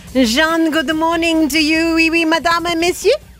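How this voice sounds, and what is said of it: Put-on French accent. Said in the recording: “I'm going to switch to my French accent now... We cannot speak without the French accent now... how good is my French accent?”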